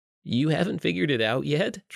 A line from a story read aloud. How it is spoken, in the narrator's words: Trevor chuckled